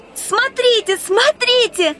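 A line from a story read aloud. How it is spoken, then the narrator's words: Shout. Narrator (Russian): закричала она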